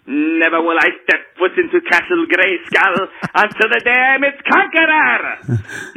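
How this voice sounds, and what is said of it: Skeletor impression. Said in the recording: “I do a pretty good Skeletor impersonation.”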